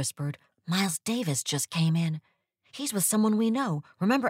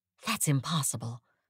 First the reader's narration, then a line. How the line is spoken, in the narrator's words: I whispered back